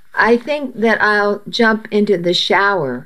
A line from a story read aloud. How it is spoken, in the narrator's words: said